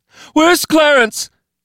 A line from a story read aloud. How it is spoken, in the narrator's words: She screamed to no one, to everyone